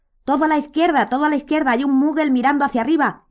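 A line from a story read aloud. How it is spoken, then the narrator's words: Sudden shout from behind. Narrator (Spanish): gritó de pronto Modi desde atrás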